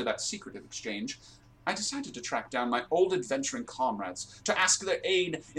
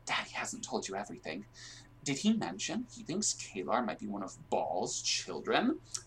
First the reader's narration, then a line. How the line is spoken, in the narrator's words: Ski leaned in conspiratorially and whispered